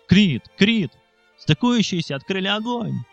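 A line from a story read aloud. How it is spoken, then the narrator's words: Shouting. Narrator (Russian): кричал Вертко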